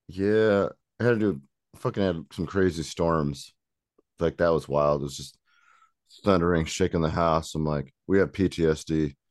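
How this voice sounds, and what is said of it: Groggy, deeper-than-usual morning voice. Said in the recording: “My voice is barely awake, so I'm probably going to sound deeper and stupider than normal.”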